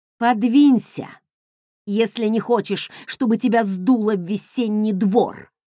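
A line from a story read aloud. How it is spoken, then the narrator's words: Growled. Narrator (Russian): прорычала я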